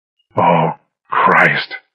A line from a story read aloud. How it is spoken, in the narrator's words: I said hoarsely